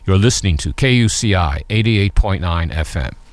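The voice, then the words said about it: Deep announcer-style radio voice. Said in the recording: “my radio voice ... Which you have a fabulous radio voice ... the tone in my voice ... my voice drops below”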